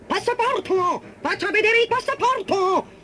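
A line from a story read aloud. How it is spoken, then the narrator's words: Big rat shouting. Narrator (Italian): un grosso topaccio marrone gli gridò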